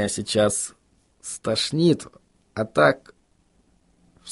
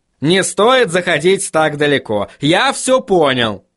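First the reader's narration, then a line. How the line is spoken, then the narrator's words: Barked. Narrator (Russian): рявкнул он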